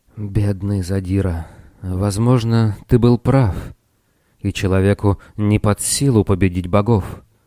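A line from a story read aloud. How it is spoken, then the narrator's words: Whisper. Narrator (Russian): прошептал он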